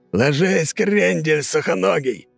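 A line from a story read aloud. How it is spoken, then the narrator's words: Yelling. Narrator (Russian): заорал Кряж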